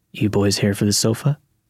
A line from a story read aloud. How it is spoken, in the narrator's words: he said in a gravelly voice that sounded like he needed to cough but couldn't get it out